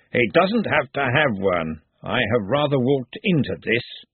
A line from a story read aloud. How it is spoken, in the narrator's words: Ridcully growled